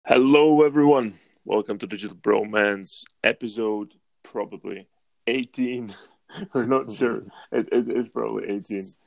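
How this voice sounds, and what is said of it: Strained, rough-sounding voice. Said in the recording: “My voice is a bit weird today, isn't it? I feel like I've been screaming all day yesterday”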